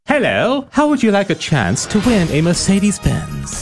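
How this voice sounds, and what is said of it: Put-on posh accent. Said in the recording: “What's up with the accent ... Just putting on a posh accent”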